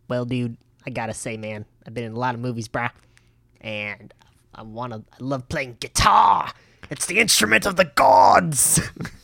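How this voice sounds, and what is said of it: Imitates another person's voice. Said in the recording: “do a Jack Black impression”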